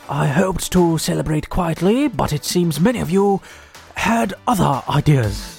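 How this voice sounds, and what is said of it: Terrible David Attenborough impression. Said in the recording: “here comes my terrible impression ... King Charles, David Attenborough, same impression”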